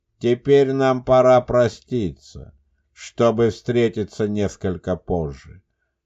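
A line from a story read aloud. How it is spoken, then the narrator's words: Calm dead man. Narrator (Russian): спокойно произнес мертвец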